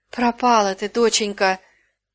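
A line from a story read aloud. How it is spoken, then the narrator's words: Moaned dully. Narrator (Russian): глухо простонала она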